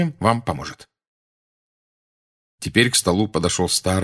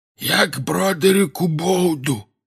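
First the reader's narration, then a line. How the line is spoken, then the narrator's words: Hoarse wheeze. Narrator (Russian): просипел он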